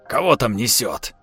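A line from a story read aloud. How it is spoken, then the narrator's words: Gruff grumbling man. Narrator (Russian): пробурчал бородач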